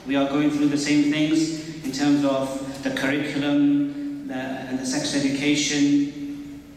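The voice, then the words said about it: English accent. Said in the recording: “as you may know from my accent, not from Canada. I am from the United Kingdom and from England.”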